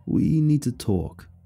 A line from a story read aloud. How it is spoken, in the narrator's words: John said solemnly